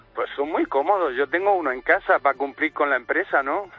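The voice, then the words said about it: Murcian Spanish accent. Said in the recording (Spanish): “¿tienes acento de Murcia?”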